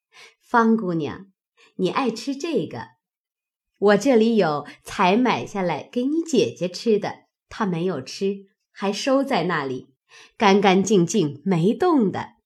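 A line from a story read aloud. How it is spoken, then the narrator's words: Hurried, smiling. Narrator (Chinese): 柳家的忙笑道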